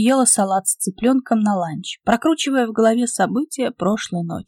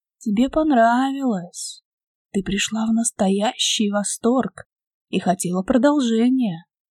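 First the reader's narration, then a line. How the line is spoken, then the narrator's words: Quiet nagging inner whisper. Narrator (Russian): шептал тихий, назойливый голосок в голове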